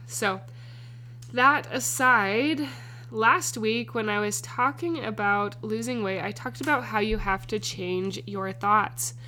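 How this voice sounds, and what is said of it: Congested, stuffy-nosed voice. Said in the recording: “I sound a little congested. I am a little congested... my nose is just clogged... I sound kind of off”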